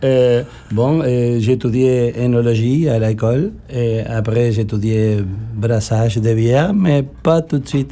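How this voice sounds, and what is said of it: Argentine accent speaking French. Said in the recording (French): “accent bizarre, je suis originaire de l'Argentine ... Très bel accent”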